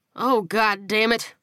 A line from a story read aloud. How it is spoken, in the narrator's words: he groaned